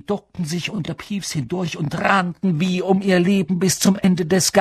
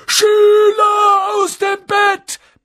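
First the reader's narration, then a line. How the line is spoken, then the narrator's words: Bellowing. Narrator (German): brüllte Peeves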